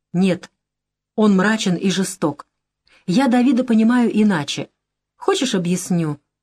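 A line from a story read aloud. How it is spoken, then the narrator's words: Timid question. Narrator (Russian): робко спрашивает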